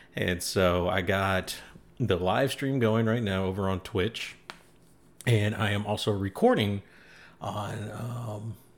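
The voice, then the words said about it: Sick, slightly off-sounding voice. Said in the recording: “I'm feeling a little sick ... why I sound a little weird on the microphone”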